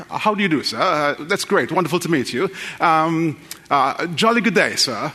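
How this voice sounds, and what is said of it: Put-on British accent. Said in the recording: “how a British person might sound”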